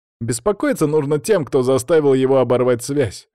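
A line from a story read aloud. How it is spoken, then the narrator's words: Wry snort. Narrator (Russian): хмыкнул Никита Михайлов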